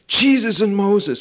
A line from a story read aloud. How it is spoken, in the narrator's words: shouted